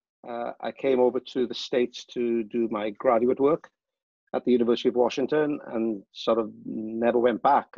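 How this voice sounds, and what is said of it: Welsh accent. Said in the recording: “I have an accent. So I'm from Wales.”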